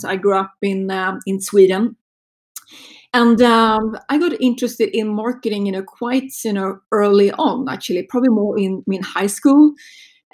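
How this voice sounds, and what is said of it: Swedish accent. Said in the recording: “if you're wondering about my accent, it's a Swedish accent.”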